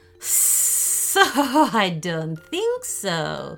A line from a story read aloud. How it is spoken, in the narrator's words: laughed